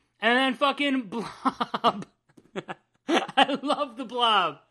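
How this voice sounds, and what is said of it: Usual voice. Nothing is said of it.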